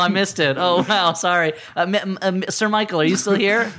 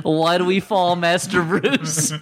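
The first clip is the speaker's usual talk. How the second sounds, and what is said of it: Imitates another person's voice. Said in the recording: “Are you doing an impression of somebody else? ... Just doing the most famous Michael Caine line.”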